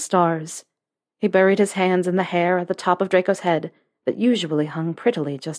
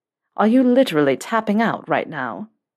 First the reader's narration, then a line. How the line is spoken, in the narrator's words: Draco asked with a chuckle